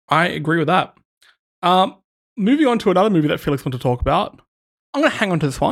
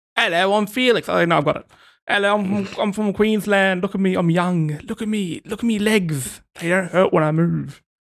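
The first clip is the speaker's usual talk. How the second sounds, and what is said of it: Imitates another person's voice. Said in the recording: “I can't even do a good impression”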